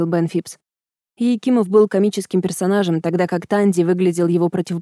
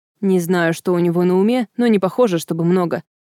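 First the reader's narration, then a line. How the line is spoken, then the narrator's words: Snorting. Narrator (Russian): фыркнул Бен Фипс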